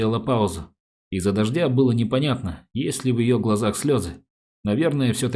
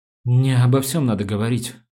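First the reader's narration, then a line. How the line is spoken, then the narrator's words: Young woman's trembling voice. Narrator (Russian): сказала девушка дрогнувшим голосом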